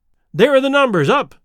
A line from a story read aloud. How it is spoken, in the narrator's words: I cried